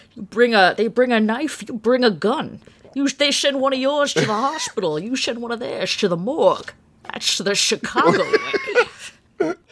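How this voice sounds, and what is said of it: Imitates another person's voice. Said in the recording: “a bad Connery impression ... That's the real Chicago accident ... Whatever Sean Connery's doing in that movie, that's that's the true accent”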